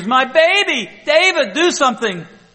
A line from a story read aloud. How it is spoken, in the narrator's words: Sarah screams